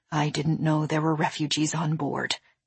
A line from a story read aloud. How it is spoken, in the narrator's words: she said, her voice suddenly hushed